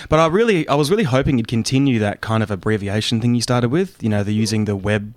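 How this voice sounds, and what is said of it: Australian accent. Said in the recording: “I'm classing the Australian accent of Mike Costello as an accent”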